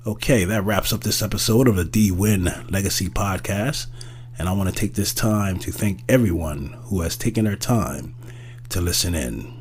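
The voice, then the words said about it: Voice worn from a cold. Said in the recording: “as you can hear, my voice is still not at 100%, still fighting the after effects of this darn summer cold.”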